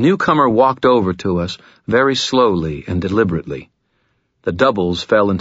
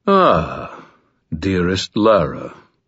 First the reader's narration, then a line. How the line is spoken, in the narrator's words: murmured